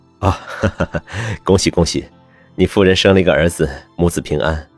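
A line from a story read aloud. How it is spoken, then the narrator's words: Laughing. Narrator (Chinese): 医生笑道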